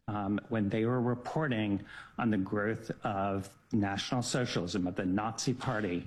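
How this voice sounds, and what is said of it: Unusual, weird-sounding accent. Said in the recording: “Weird accent ... he's a weird accent”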